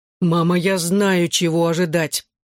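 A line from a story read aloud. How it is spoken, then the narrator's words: Groaning. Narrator (Russian): простонал я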